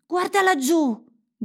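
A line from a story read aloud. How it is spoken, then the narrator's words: Shouted. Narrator (Italian): gridò Gerda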